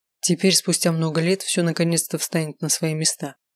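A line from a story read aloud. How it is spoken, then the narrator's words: Cold. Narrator (Russian): холодно произнес Эрик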